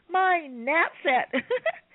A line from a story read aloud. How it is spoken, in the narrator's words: Ivy giggled